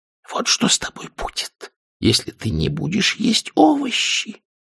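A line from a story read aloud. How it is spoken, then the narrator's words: Caring parents whispering to children. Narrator (Russian): заботливые родители во всем мире могли ... шептать детям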